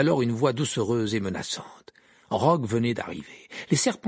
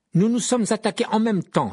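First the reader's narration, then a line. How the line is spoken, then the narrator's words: Exclaimed. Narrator (French): s'écria Harry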